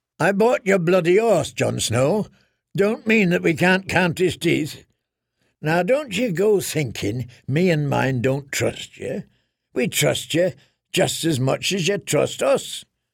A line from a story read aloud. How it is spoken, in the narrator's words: snorted